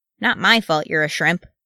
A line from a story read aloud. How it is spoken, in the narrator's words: Wee Thorin snapped